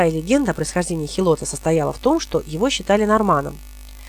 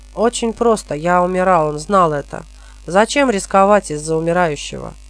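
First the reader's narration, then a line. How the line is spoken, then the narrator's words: Snorting. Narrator (Russian): Робин хмыкнул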